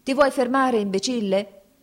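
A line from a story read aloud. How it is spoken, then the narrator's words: Shouted. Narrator (Italian): gli gridò un quartiermastro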